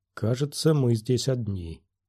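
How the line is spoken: Quiet. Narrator (Russian): тихо промолвил Квай-Гон

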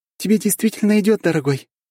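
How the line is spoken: Giggling. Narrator (Russian): хихикнула Настя

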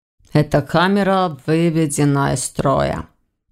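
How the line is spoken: Gloomy remark. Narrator (Russian): мрачно заметил Войтых

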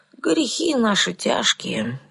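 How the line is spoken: Vague sigh, peasant man. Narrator (Russian): неопределенно вздохнул мужик

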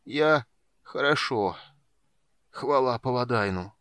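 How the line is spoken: Moaned. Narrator (Russian): простонал Танин

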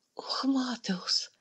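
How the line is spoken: Breathless exhale. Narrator (Russian): выдохнула мать

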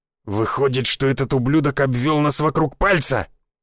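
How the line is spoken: Growl. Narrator (Russian): прорычал красноречинец

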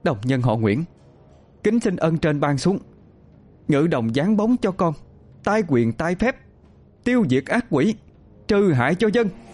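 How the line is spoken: Loud, calling inward. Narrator (Vietnamese): Giang lớn tiếng nói vọng vào trong điện

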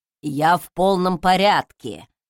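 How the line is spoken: Wheezing rasp. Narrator (Russian): просипел он

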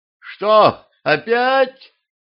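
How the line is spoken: Distant yell. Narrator (Russian): издалека заорал тот

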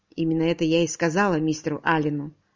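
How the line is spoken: Even-voiced remark. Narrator (Russian): ровным голосом заметила Джанетта

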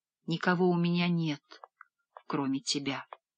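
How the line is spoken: Whispered. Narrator (Russian): прошептал Фред

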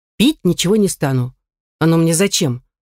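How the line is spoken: Stubborn through gritted teeth. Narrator (Russian): упрямо процедила

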